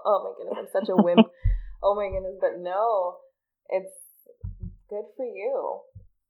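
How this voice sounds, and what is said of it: Emotional, choked-up speech. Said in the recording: “I'm literally getting emotional. So sorry, why am I getting emotional?”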